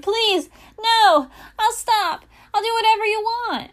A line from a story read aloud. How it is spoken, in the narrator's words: Immediately, the monster shouted